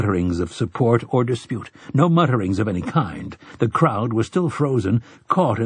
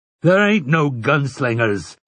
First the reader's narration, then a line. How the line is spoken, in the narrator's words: Overholzer roared